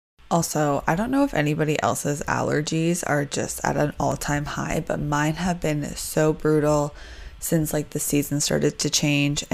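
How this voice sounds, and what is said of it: Congested, stuffed-up voice. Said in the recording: “I sound a little stuffed up,”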